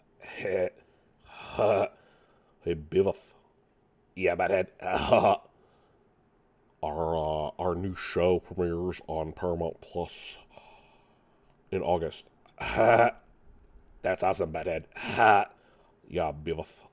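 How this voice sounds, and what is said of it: Poor impression of cartoon characters. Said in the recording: “My terrible impression of Beavis and Butthead”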